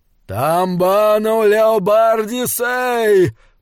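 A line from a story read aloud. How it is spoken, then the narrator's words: Hoarse mournful roar. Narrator (Russian): проревел Бенигарис, и, как это ни чудовищно, голос его был хриплым и скорбным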